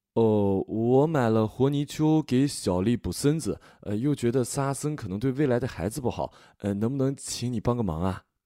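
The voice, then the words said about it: Slow southern accent, drawn-out pleading endings. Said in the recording (Chinese): “南方口音语速慢，尾音拖得长，天然带一种乞求的语气”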